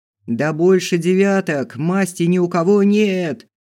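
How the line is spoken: Yell. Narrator (Russian): завопил

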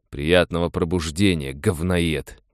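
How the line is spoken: Growling. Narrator (Russian): прорычал он

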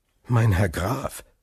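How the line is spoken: Trembling voice growing steadier. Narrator (German): begann Albert mit zunächst zitternder Stimme, die jedoch immer sicherer wurde

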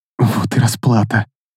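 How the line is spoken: Muttering. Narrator (Russian): пробормотала Чизедра

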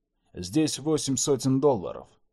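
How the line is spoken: Plain. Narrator (Russian): сказал Чет

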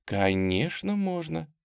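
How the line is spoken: Soft reply. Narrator (Russian): мягко ответила Тамара

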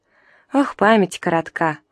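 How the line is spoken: Laughing. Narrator (Russian): он засмеялся

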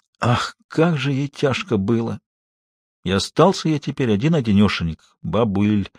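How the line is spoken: Muffled, groaning, forced out. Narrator (Russian): опуская голову на грудь, глухо, со стоном выдавил

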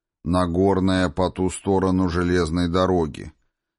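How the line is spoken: Plain. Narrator (Russian): сказал Домоморф

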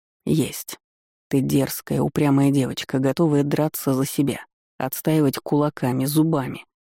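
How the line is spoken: Muffled murmur. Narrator (Russian): пробормотал в мои волосы Дантиэль

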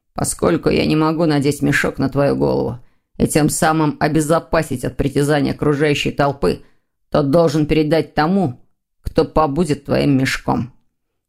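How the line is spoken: Grumbling. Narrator (Russian): проворчал Лефевр

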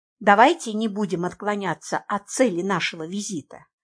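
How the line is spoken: Quiet speech. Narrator (Russian): негромко сказала

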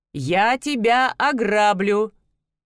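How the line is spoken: Loud, continuing. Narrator (Russian): Все так же громко продолжил Дантелион

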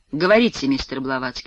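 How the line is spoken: Weary. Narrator (Russian): устало отзывается он

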